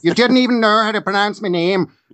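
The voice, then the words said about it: Put-on Irish accent. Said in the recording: “that's not her accent, actually. It's a different part of Ireland. ... Uncanny.”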